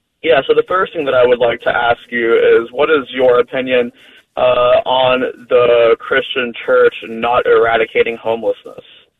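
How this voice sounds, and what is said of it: American accent. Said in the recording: “United States, where I'm assuming because of your accent, that's where you're calling from”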